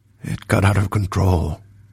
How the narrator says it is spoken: Valeth murmured

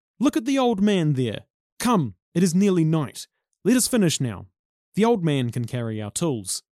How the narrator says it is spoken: One of them shouted

